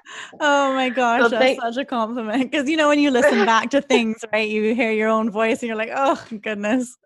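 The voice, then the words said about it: Pleasant voice with a nice accent. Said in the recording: “Your voice is so nice. ... you have the nicest accent.”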